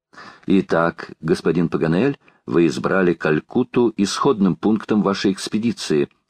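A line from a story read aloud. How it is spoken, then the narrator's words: Plain. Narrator (Russian): спросил лорд Гленарван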